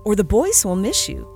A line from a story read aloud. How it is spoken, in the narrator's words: said kindly